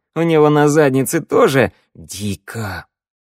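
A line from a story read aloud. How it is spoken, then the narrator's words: Hissing. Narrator (Russian): зашипела Санда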